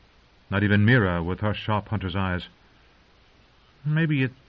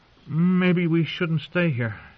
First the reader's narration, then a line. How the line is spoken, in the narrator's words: he said uneasily